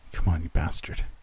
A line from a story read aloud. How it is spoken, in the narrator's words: muttered behind me, anxiously